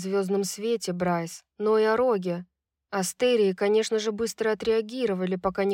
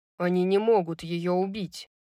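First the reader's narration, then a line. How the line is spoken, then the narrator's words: Angry. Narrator (Russian): сердито произнес Рун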